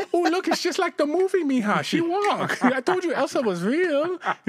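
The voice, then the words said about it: Exaggerated put-on Mexican accent. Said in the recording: “I don't know if your Mexican accent's Spanish or Chinese”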